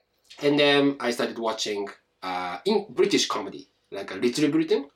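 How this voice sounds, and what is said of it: Strong Japanese accent in English. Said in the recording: “You speak English with a strong accent ... strong Japanese accent”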